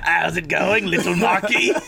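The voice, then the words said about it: Weak put-on British accent. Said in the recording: “British accents ... I can't even keep the accent up”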